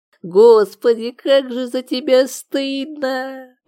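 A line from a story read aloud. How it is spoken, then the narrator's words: Groaned. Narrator (Russian): простонал Валик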